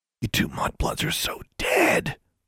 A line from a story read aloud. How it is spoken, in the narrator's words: Larry hissed